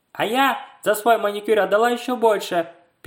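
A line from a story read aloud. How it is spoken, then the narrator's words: Squeaky voice. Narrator (Russian): пискливым голосом проговорила Настя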